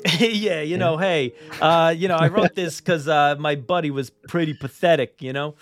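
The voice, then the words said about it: Put-on New Jersey accent. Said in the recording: “Jersey accent”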